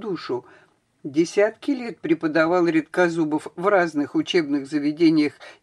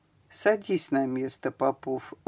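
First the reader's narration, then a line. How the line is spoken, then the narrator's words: Gentle tone. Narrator (Russian): ласково сказал он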